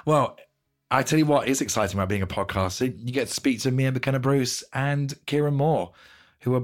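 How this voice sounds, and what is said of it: Strained voice, nearly losing it. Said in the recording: “as you may be able to hear, I'm on the verge of losing my voice.”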